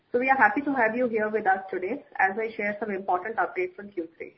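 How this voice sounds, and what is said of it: Speaking with a sore throat. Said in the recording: “I have a little bit of a sore throat”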